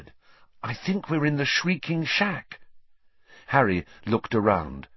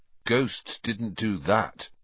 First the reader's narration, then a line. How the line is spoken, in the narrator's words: he said slowly